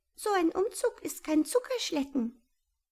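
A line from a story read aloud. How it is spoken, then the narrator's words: Squeaky, exhausted. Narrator (German): piepste Mama Maus erschöpft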